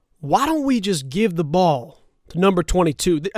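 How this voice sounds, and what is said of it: Poor impression with put-on Texas accent. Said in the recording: “this is my horrible Mike McCarthy impersonation. He's not even really, doesn't really have a Houston accent, Texas accent”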